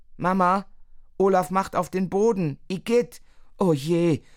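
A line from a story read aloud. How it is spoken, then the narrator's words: Mother calling out. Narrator (German): ruft Mama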